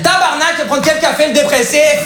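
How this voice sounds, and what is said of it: Put-on Québécois French accent. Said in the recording (French): “j'ai pris l'accent québécois, il faut savoir, je suis pas du tout québécois”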